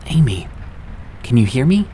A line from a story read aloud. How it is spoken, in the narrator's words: asked, my voice quivering